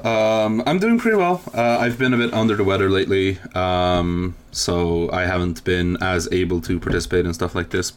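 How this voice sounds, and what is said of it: Foreign accent, sounds somewhat Swedish. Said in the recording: “that beautiful Swedish, not Swedish accent that you have ... your accent's great ... it's actually not Swedish. Like, uh, it's like a cross between ... You clearly got like a mix of something else going on there”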